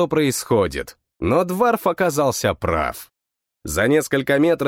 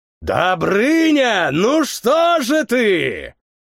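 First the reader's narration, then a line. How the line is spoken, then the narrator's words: Cheerful familiar shout. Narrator (Russian): крикнул до боли знакомый веселый голос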